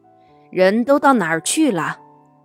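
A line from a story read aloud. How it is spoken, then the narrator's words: Loud shout. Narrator (Chinese): 先生在书房里边大叫起来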